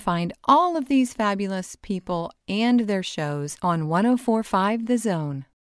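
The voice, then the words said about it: Radio announcer voice. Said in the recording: “That's my best radio impression.”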